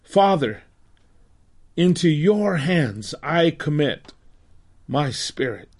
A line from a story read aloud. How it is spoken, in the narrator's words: Jesus cried out again in a loud voice